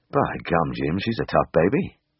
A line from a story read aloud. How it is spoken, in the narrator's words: muttered